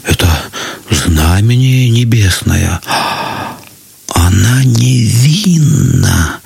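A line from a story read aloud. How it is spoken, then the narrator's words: Crowd whispering. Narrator (Russian): зашептали многие, но не смели сказать этого вслух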